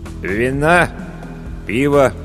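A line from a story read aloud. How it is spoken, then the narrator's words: Glum inquiry. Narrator (Russian): уныло осведомился корчмарь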